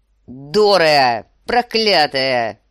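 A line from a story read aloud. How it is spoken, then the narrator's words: Roar. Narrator (Russian): взревел сир Джорах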